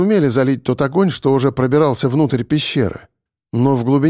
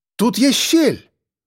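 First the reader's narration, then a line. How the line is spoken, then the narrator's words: Sudden shout. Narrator (Russian): вдруг крикнула Евгения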